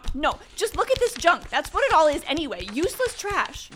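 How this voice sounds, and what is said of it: Yelling. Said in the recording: “You can keep yelling.”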